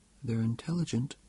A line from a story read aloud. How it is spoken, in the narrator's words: interjected Antioch softly